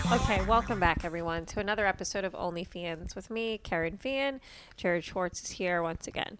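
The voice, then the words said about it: Flat monotone speaking voice. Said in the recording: “That's why I'm speaking in a monotone.”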